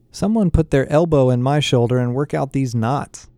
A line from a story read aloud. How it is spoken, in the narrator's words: said Becky